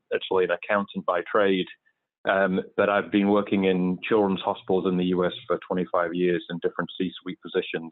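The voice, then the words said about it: English accent. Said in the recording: “I'm originally from England. You can probably tell from my accent.”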